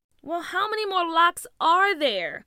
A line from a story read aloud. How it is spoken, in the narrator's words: Tia groaned